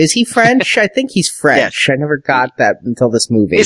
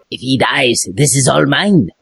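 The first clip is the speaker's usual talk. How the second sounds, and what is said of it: Bad put-on French accent. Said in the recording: “that horrible French accent”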